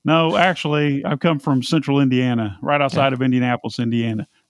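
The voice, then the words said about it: American Midwestern accent. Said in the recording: “I've been blamed for being Texan and Tennessean and all sorts of things. So it's called a lazy tongue”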